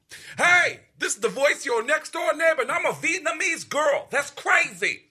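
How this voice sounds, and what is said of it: Bronx accent, Tracy Morgan impression. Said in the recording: “an accent from the Bronx ... everybody in the Bronx sounds like Tracy Morgan”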